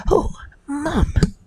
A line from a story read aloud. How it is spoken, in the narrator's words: he gasped